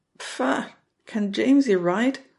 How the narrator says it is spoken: Barney will splutter

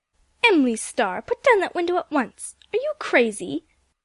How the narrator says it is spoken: Aunt Ruth exclaimed

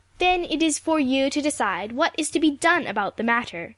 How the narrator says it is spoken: said Ruth triumphantly

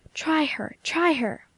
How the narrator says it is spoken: whispered Cousin Jimmy

